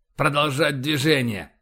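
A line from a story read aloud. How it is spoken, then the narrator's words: Hostile, through teeth. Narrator (Russian): неприязненно процедил Боровский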